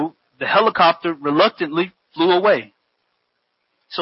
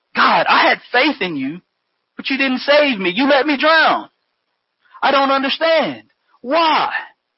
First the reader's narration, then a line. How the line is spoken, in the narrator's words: he exclaimed